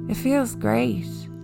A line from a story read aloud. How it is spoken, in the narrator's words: the head groaned